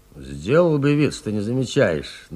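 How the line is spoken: Gruff mutter while walking. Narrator (Russian): на ходу буркнул Нестеренко

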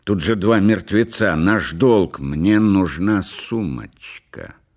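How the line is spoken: Stubborn and angry. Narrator (Russian): сказала Делла упрямо и зло

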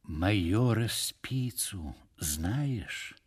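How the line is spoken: Intimate confiding tone. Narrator (Russian): продолжал он уже интимным тоном

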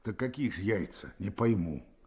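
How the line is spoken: Calm, quiet question. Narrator (Russian): Спросил он опять спокойно и негромко

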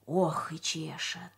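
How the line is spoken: Whispered. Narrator (Russian): прошептал один из слесарей

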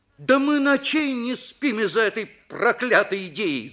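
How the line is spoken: Shout. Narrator (Russian): закричал Виктор

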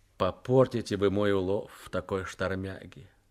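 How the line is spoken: Gloomy complaint. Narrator (Russian): Захаров уныло жаловался Шелесту

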